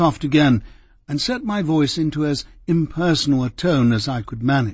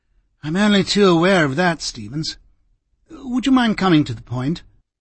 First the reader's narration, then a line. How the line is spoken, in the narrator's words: Cardinal gave a sigh and said